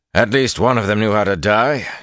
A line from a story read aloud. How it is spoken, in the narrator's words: Gallien growled